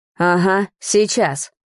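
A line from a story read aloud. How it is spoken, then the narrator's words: Father growling again. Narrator (Russian): опять рыкнул отец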